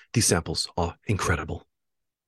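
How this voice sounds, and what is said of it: Bad imitation of another person's voice. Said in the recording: “I'll do a really bad Gordon Ramsay impression.”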